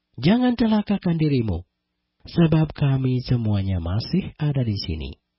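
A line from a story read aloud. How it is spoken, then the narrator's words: Loud calling out. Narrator (Indonesian): Paulus berseru dengan suara nyaring, katanya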